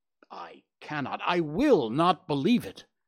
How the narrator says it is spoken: cried the banker with an ashen face

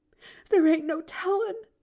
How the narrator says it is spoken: sobbed Nancy

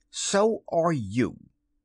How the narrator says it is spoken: he retorted hotly

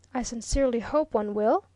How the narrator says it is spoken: exclaimed Viner

